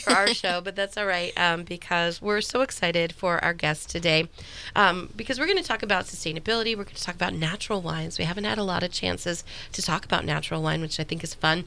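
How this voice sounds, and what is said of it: Congested voice from a cold. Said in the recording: “You can hear from my voice over the Thanksgiving holiday. I got a cold”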